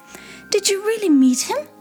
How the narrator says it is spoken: asked excitedly

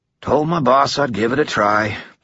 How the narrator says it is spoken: the chief sighed

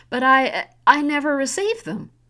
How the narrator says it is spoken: Elise cried

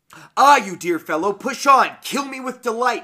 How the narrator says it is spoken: she screamed in ecstasy

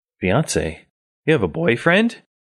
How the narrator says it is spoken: you exclaim suddenly

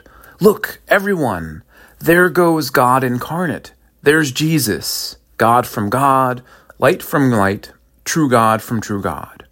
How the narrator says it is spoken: cried out

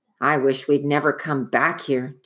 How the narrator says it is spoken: Jack muttered

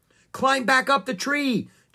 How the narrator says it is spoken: Jack shouted at Annie

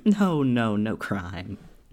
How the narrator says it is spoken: said Holmes, laughing

